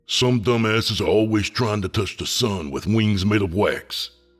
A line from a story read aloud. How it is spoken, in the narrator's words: the stoic leader grumbled